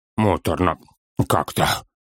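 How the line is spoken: Strained mumble. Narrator (Russian): скривившись и с трудом сглатывая, пробормотал Торин

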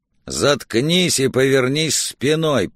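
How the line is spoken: Aggressive growl. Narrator (Russian): прорычал коп, готовый к схватке

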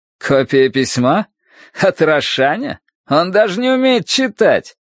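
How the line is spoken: Forced laugh. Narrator (Russian): Джо удалось рассмеяться

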